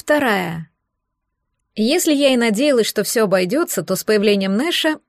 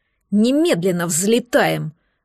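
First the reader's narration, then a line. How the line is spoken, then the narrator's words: Angry, curt. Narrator (Russian): зло бросил Нэш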